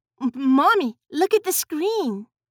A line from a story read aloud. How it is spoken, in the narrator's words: Judith cried out